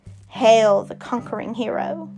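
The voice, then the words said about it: Evil laughing voice. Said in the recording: “The evil voice began to laugh.”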